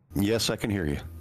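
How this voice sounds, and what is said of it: Calming radio voice. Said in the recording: “your calming radio voice just already settled me down”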